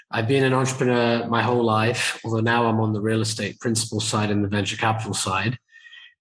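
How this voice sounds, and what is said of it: British accent. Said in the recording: “You can tell by the accent that I am not from the US. I'm actually originally from the UK”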